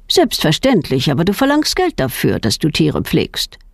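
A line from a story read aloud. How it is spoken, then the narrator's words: Plain. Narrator (German): sagt der Pfarrer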